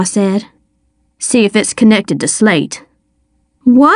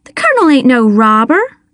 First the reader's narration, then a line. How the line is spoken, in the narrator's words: I said, my voice rising